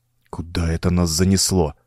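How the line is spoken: Muttered. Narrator (Russian): пробормотал Чендлер

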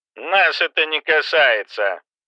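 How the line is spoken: Muffled. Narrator (Russian): глухо произнес Кэмпбелл

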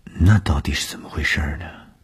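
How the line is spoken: Shy mumble. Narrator (Chinese): 东风的脸上飞过红晕，喃喃地说

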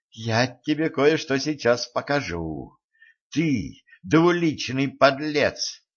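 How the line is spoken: Exclaimed. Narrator (Russian): воскликнула

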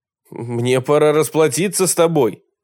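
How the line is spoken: Shouting. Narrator (Russian): крикнул он

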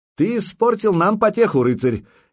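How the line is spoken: Cheerful shout. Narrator (Russian): весело крикнул ему Болеслав

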